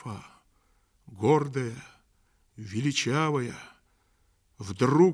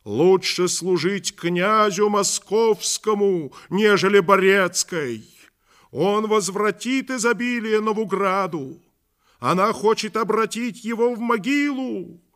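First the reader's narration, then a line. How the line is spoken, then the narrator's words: Crowd shouting. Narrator (Russian): Тайные друзья Иоанновы кричали перед домом Ярославовым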